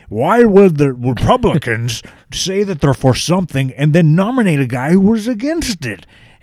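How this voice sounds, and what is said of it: Jesse Ventura impression. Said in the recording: “great Jesse Ventura impersonation”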